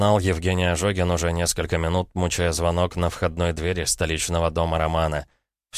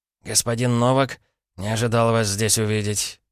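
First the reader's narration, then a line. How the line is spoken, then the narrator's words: Breathless exhale. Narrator (Russian): выдохнул он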